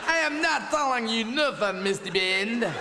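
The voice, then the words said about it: Put-on villain accent. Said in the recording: “I can do an accent”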